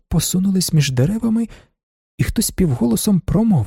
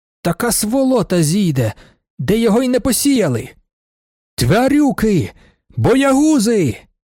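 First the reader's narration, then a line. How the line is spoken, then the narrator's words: Frantic shouting. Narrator (Ukrainian): крикнув Вокульський несамовито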